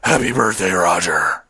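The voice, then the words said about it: Batman character voice. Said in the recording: “in my Batman voice”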